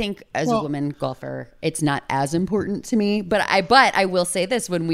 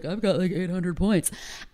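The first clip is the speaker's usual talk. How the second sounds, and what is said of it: Imitates another person's voice. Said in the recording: “That's a pretty good Brian impression, by the way. That's spot on.”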